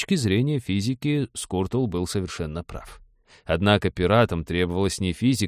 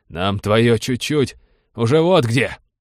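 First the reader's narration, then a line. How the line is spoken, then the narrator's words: Barked. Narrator (Russian): рявкнул замыкающий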